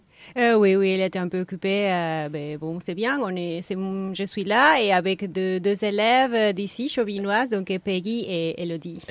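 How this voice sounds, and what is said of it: Hispanic Peruvian accent in French. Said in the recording (French): “ce petit accent ... mon accent hispanique et péruvienne”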